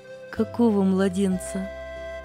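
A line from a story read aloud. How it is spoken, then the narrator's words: Soft questioning. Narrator (Russian): мягко переспросила сестра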